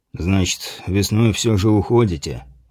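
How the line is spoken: Sighed. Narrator (Russian): вздохнул грек

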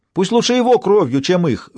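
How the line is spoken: Woman shouting out. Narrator (Russian): выкрикнула женщина

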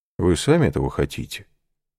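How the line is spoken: Calm abbot answering. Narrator (Russian): спокойно отвечал аббат

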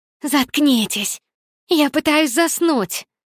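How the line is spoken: Loud dramatic groan. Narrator (Russian): Громко застонала Никс чисто для драматического эффекта

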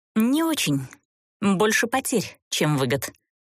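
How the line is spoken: Skeptical female snort. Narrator (Russian): скептически фыркнула она

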